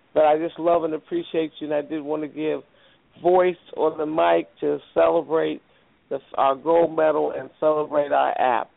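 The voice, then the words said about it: Weak, tired voice from travel. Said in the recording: “Because I've been traveling all day and my voice is kind of weak, as you can hear ... I hope you feel better. Gargle that throat.”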